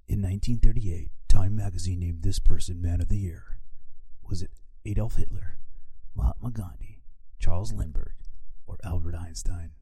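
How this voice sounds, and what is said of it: Dramatic movie voice. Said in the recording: “Can I do my movie voice?”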